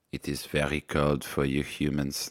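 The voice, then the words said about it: Attempted German accent, sounds French. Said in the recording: “I need to work on my German accent ... That's kind of French.”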